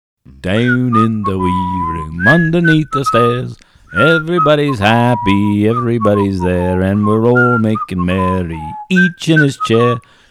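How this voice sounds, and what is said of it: Singing in put-on Liverpool accent. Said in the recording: “sung in a Liverpool accent by an American”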